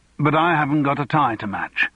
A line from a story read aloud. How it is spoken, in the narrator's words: said Raymond triumphantly